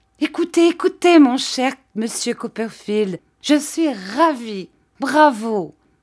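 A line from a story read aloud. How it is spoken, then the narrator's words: Enthusiastic high-pitched shout. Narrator (French): Ce qu'elle fit avec enthousiasme en criant d'une voix aiguë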